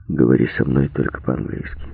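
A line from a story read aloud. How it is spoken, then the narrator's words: Said quietly. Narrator (Russian): Рэмбо тихо сказал девушке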